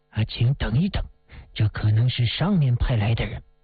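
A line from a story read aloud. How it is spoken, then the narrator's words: Hushed low voice. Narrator (Chinese): 守备长官 低声地说了一句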